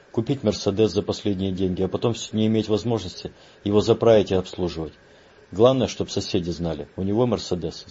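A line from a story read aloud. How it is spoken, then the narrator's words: Plain. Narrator (Russian): сказал Лернер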